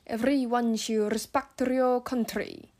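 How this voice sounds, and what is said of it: African-accented English, heavier stress. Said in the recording (Chinese): “如果你像是一些非洲语系的国家，它可能就有更重强调”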